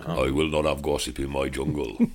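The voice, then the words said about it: Imitates another person's voice. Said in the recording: “my Windsor Davis impression”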